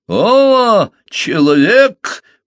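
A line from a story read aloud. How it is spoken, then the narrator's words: Thundering reply. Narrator (Russian): прогремел в ответ Омаата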